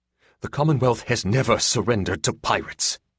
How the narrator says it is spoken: he snapped

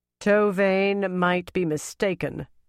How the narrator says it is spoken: Tsutama said in a very strong voice

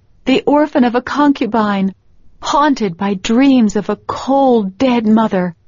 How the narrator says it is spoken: wailed

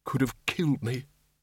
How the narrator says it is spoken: he muttered

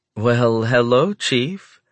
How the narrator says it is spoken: she says warmly

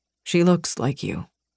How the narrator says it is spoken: he murmured

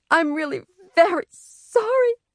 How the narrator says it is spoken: Sheila cried

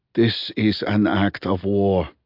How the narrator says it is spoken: breathed China

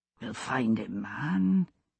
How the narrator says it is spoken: he said softly in Gaelic

